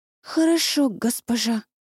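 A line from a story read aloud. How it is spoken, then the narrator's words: Hoarse voice. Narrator (Russian): сипло вымолвила бедняжка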